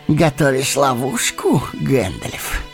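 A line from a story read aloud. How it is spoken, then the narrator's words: Hoarse laughter. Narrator (Russian): Хрипло засмеялся Саруман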